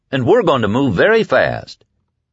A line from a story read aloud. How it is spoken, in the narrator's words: Flagg said happily